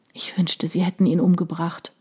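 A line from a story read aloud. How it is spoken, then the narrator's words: Murmured. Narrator (German): murmelte sie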